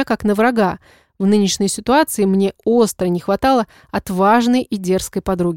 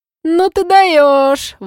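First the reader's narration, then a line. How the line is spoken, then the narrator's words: Admiring exclamation. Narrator (Russian): восхищенно воскликнула она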